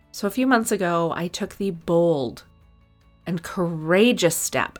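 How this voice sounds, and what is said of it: Sarcastic delivery. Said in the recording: “I'm just kidding. I'm being sarcastic.”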